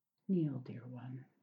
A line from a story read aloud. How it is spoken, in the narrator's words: he instructed tenderly